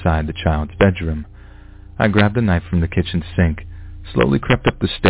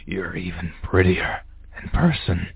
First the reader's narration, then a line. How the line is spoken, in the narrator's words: wheezed